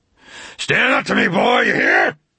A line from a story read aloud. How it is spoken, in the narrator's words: A roar, a bellow like the roar of a forest fire out of control